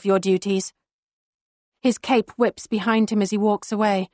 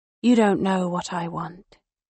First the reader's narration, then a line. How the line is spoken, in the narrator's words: Karis says softly